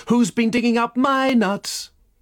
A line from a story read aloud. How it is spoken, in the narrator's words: a crowd of squirrels shouting